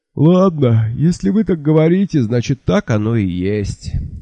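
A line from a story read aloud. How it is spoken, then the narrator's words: Sleepy sigh. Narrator (Russian): сонно вздохнул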